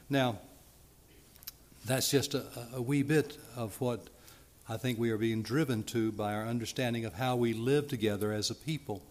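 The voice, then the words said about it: Speaker with a noticeable accent. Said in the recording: “my accent or my diction”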